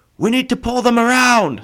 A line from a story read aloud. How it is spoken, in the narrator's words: Stone Knife shouted in the comm channel